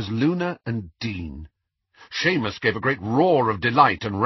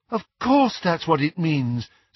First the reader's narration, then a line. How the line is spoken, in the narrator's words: said Luna brightly